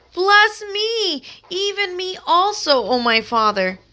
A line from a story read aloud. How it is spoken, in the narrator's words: he cried with a great and exceeding bitter cry, and said unto his father